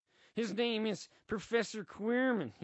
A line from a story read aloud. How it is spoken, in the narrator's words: he stutters